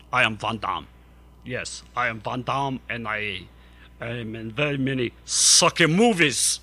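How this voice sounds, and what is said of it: Jean-Claude Van Damme impression, foreign accent. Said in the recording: “It's a foreign accent, because Van Damme is a foreigner, and I gave him a foreign accent.”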